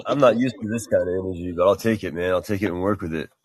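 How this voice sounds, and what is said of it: Deep radio voice. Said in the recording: “I love ... with his deep radio voice. ...got a deep radio.”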